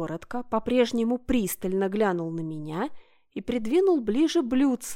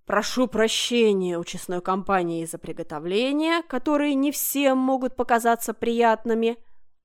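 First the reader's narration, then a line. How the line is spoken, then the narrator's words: Deep bass voice. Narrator (Russian): пробасил Аркадий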